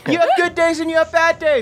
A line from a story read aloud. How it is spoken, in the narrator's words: I scream